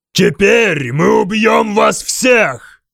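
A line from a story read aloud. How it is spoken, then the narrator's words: Screamed. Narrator (Russian): завопил он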